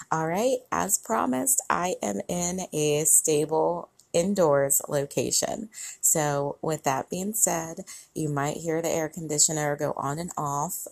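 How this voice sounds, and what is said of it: Strained, slightly worn-out voice. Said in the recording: “my voice is a little gone from all of the talking that I have been doing over the past couple of days”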